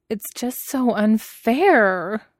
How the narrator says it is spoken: Nie Huaisong moaned

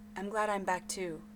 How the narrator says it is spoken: he said

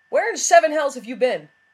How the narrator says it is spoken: he shouted without preamble

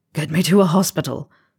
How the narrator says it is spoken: Bill gasped

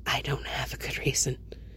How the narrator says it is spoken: he whispers, hoarse

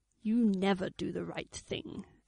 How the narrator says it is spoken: Avon pointed out, keeping his tone as caustic as he could

